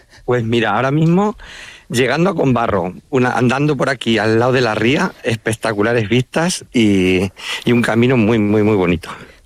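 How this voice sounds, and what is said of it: Manchego Spanish accent. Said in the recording (Spanish): “Te ha salido a ti también el acento manchego”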